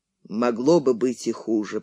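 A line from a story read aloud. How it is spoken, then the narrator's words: Grumbling. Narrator (Russian): проворчал он наконец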